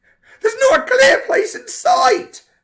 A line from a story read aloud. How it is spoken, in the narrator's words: Frank screamed into the walkie-talkie